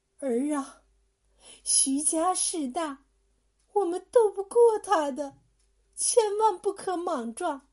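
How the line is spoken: Mother sighing. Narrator (Chinese): 娘却叹了口气说

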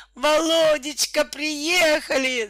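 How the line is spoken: Screaming. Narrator (Russian): завопила Наталья

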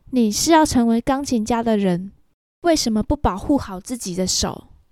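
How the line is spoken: Calm, cool. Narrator (Chinese): 小雨 淡淡说道

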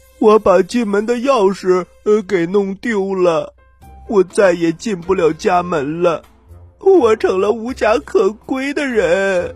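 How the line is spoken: Tearful. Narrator (Chinese): 板刷带着哭腔说

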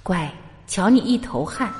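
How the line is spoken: Gentle. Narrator (Chinese): 很温柔的说

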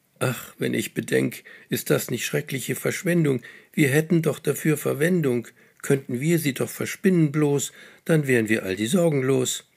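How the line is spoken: Sighing. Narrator (German): Röschen seufzt

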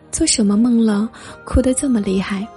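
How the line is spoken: Sighing. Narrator (Chinese): 他叹息

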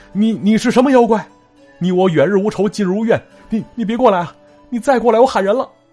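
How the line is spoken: Trembling shout. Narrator (Chinese): 他是颤颤巍巍大喊一声

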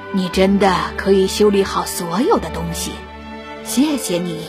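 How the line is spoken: Beast speaking gently. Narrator (Chinese): 野兽难得温柔……说道

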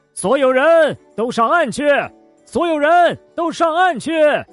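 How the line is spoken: Loud shout. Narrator (Chinese): 大喊

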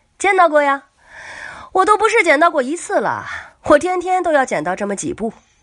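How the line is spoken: Flippant, grinning. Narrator (Chinese): 守墓人仍然是嬉皮笑脸的说

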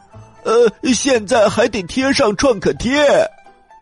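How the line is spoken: Loud shout. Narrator (Chinese): 创可贴大声的喊

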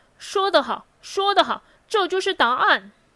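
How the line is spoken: Loud cheering. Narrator (Chinese): 布姆利叫好的声音特别大

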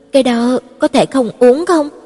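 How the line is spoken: Miserable. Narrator (Vietnamese): mặt mũi khổ sở nói

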